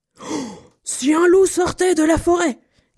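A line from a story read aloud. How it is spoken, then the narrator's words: Angry shout. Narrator (French): cria-t-il très en colère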